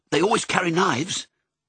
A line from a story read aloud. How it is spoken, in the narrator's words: Lucky said quickly